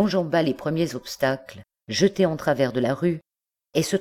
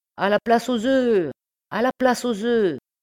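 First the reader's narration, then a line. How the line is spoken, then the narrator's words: Shouting louder. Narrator (French): il cria plus fort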